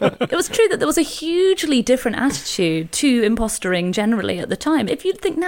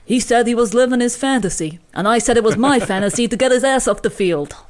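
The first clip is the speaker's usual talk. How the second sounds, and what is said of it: Tommy Lasorda impression, Italian-American accent. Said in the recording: “Tommy Lasorda, who recalled, and I imagine this is probably how he sounded ... that's your Houston accent ... he travelled there from an Italian-American place, in my interpretation”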